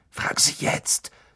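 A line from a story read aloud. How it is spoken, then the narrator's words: Hiss. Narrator (German): zischte Ron Harry zu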